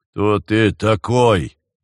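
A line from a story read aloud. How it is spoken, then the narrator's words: Low rumbling question. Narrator (Russian): спросил Джон Ду низким ракочущим голосом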